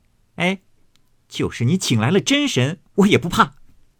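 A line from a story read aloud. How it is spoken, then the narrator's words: Laughing. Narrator (Chinese): 又笑道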